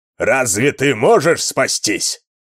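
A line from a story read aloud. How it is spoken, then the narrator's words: Deep, powerful, commanding voice. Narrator (Russian): Глубоким, мощным, властным голосом произнес он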